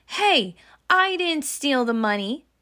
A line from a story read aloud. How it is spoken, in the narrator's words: yelled Scott